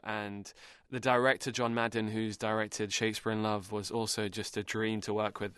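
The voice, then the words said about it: British accent. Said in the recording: “I'm from the UK. Yeah, that's the accent.”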